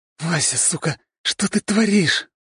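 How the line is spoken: Hissing. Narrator (Russian): прошипел Андрей, страдальчески закатывая глаза, совсем забыв свое княжеское воспитание

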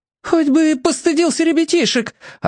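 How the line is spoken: Yelling. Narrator (Russian): орала на окосевшего родственника тетка Анюта

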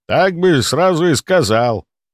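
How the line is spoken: Grumbling, no longer arguing. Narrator (Russian): проворчал он, уже не споря

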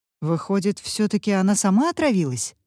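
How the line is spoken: Plain. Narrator (Russian): спросил капитан Блестанов

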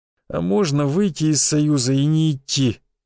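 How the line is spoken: Groaning with effort. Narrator (Russian): простонал я, с трудом поднимаясь

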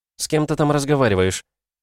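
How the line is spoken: Familiar voice. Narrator (Russian): знакомым голосом сказали

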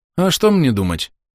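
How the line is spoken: Sad sigh. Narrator (Russian): грустно вздохнул Олан

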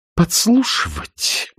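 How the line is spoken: Indignant. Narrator (Russian): возмущенно начала она

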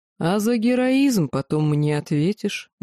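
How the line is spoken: Grim warning. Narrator (Russian): мрачно предупредил

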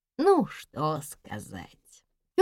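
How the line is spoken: Sighing. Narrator (Russian): Тетя Лина вздохнула

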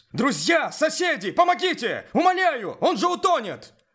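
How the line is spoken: Desperate shout. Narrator (Russian): выкрикнул маляр

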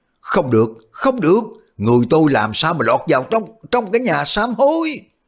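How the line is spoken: Old man screaming. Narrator (Vietnamese): lão thét lên

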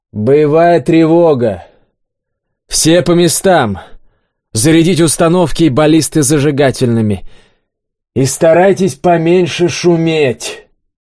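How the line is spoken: Loud announcement. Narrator (Russian): Олег склонился в трюм, громко заявил

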